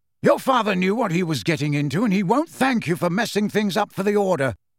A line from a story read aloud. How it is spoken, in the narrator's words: said Sirius angrily in his turn